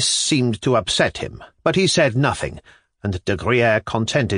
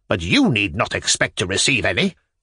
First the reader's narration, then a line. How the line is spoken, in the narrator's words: she added sharply to the general